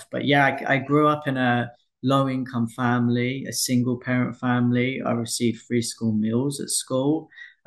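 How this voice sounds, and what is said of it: Essex and South London accent. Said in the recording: “Essex. I should have caught that... The accent... The accent comes in and out. I live in Southeast London now, so I'm kind of getting the twang of both.”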